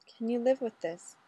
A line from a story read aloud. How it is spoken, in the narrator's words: Ray whispered